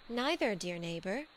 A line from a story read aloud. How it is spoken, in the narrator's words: she said